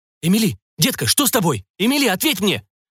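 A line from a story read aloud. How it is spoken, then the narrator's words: Agitated repeating. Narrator (Russian): взволнованно повторял Жак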